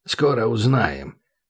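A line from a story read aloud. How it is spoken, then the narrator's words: Grumbling. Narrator (Russian): проворчал Хасан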